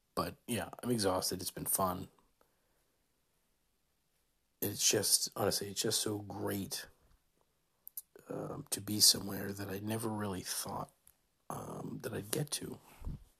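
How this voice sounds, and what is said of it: Speaking very quietly. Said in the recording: “I'm talking so quietly”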